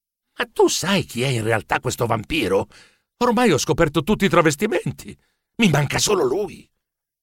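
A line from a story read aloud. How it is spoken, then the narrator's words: Quiet question. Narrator (Italian): Chiesi sottovoce a Ficcanaso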